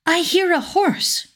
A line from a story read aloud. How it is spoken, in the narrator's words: cried the princess